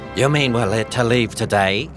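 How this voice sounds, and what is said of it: Attempted British accent. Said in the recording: “Devereaux is British. ... that sounds like me trying to do a British accent”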